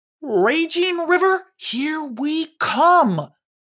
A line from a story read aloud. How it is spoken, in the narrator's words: exclaimed Punch'em